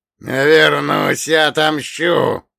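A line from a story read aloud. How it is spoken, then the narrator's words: Hoarse wheeze, possessed medium. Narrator (Russian): продолжал хрипеть одержимый духом медиум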